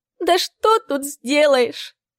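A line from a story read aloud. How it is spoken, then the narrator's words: Older woman sobbing. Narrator (Russian): всхлипнула старшая женщина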